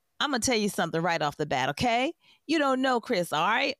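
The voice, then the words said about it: Put-on accent imitating interviewee. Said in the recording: “I'm going to try to do it in this accent”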